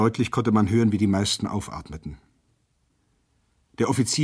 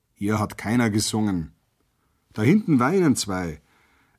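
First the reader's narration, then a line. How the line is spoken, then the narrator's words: Big man's calm reply. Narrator (German): erwiderte ihm endlich ein hünenhafter, auffallend breitschultriger Arbeiter ruhig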